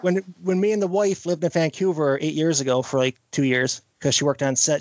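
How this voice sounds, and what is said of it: Newfoundland Canadian accent. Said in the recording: “I'm originally from Newfoundland. It was the east coast of Canada ... I may mumble. I may speak a bit fast if I get excited, and my accent may kick in a bit stronger than normal”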